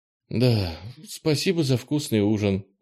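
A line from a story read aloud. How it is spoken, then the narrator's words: Tired, smiling. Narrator (Russian): устало улыбнулась Фластра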